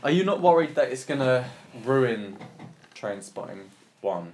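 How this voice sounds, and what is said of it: Usual voice. Nothing is said of it.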